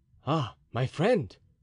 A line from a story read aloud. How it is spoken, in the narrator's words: cried Athos suddenly